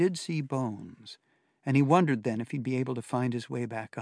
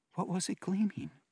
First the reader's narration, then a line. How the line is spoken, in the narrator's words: Kim whispered